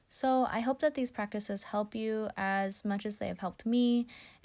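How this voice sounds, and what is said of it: Speaks very fast. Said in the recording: “sorry for talking so fast ... I start speeding through things”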